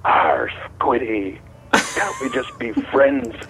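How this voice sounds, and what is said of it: Gruff pirate voice. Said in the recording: “give me your best pirate impression ... A nice pirate ... a sneaky pirate”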